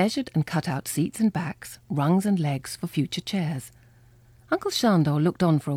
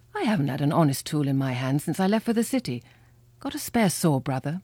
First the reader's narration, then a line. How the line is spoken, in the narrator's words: Father laughed